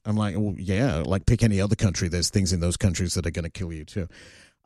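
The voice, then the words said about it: Australian accent. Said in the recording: “because they hear my accent, they're like, oh, you're from Australia?”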